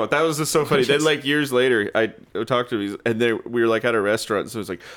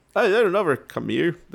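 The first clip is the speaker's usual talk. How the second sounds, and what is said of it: Put-on Irish accent. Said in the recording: “That's my Irish accent right there... That was so good.”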